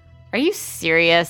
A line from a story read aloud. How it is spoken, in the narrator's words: Sam asked, incredulous, almost laughing at the absurdity of Mark's claim